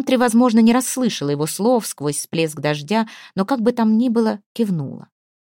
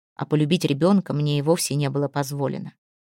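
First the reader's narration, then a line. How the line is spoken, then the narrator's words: Barely audible. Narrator (Russian): чуть слышно сказал он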